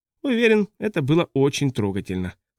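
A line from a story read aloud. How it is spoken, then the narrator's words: Dry tone. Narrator (Russian): сухо сказал Рэппл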